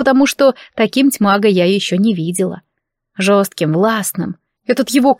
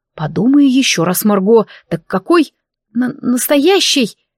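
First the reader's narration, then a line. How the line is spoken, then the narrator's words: Stuttering with agitation. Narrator (Russian): я начала заикаться от волнения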